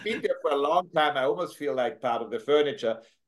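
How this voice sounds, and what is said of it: Strong Austrian accent. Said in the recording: “As you can hear, I'm from Austria originally. I have this tremendous Austrian accent that I just never lost”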